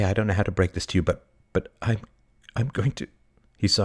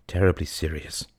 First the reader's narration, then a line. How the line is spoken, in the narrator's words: he said gravely